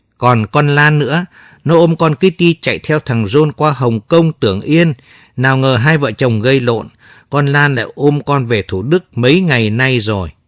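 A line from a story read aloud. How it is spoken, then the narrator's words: Long heavy sigh. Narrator (Vietnamese): Quý thở dài thườn thượt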